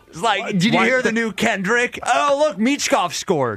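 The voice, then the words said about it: Cool surfer guy voice. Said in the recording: “That sounds more surfer bro. ... a little surfer bro ... I was doing cool surfer guy. ... It's pretty good.”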